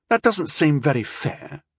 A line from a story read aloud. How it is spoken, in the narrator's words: Rondell said sullenly